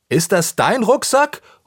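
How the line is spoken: Calls out. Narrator (German): ruft Anton

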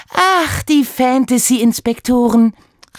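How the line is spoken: Exclamation. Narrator (German): rief sie aus

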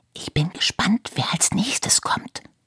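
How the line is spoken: Whisper. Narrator (German): flüsterte Iris

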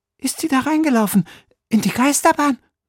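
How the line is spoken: Breathless panting. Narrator (German): keuchte Sophia außer Atem

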